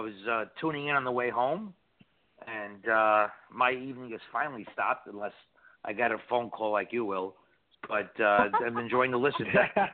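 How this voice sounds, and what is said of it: New York accent. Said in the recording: “He's up in New York... The accent is awesome.”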